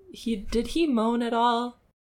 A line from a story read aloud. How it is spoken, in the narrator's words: He chuckled